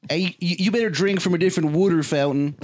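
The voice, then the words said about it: Put-on Philadelphia accent. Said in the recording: “What an absolutely atrocious accent the Philly accent is. It truly is maybe the worst one.”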